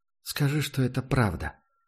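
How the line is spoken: Quiet. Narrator (Russian): произнесла она тихо, и Прайс ощутил, как ее тело едва заметно дрожит, словно от холода

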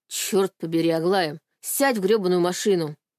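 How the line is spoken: Sharp shout. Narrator (Russian): прикрикнул он

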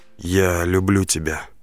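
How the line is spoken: Whispering. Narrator (Russian): прошептал

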